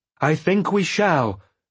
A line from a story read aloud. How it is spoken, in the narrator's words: I shouted at him, for a wild chorus of dragons trumpeting now drowned our voices